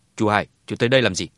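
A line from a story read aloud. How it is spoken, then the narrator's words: Cold. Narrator (Vietnamese): Hà Hùng lạnh lùng ... nói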